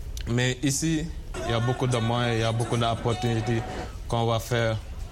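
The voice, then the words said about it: Slight foreign accent in French. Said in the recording (French): “on entend un petit accent”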